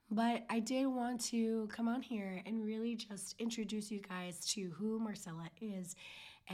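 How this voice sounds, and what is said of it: Hoarse, nearly lost voice. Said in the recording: “my voice is gone”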